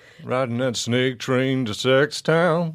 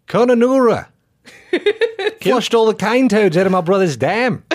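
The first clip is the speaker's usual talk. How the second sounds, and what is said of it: Put-on Australian accent. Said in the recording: “say this town name in an Australian accent”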